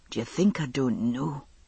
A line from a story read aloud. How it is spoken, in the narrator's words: he asked softly